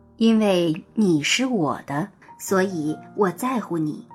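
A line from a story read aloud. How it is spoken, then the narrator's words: Slow earnest reply. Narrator (Chinese): 木匠认真的，缓缓回答道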